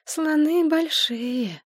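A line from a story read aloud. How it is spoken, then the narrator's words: Sleepy. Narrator (Russian): сонно сказала Машка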